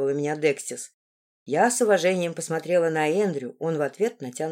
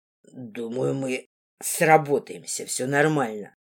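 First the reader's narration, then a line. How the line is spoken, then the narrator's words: Wheezy rasp. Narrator (Russian): Почему-то просипел Эндрю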